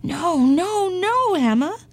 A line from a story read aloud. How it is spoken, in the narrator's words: cried the farmer